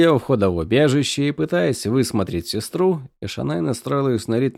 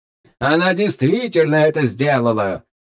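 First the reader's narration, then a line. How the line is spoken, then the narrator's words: Cheerful question while chewing. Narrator (Russian): весело спросил Тьют, жуя какой-то фрукт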